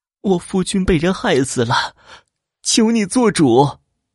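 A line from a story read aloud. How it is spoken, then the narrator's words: Crying, pleading woman. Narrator (Chinese): 兰花……扑通一声跪在司马云面前哭了起来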